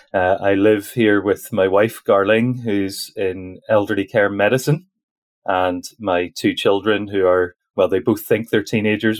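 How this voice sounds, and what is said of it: Northern Irish accent. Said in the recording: “I'm based over in Northern Ireland, so my accent does place me.”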